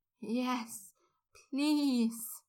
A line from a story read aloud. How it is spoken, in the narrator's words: Draco moaned